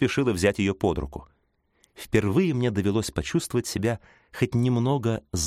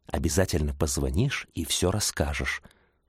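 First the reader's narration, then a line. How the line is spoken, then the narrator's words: Whispered farewell. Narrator (Russian): шепнула на прощание Лесли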